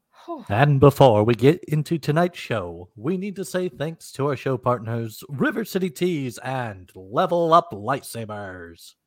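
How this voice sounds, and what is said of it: Booming announcer voice. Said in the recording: “Listen to that announcer voice.”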